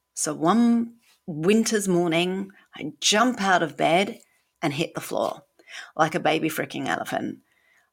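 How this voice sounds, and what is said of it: British accent. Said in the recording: “from my accent, I am British”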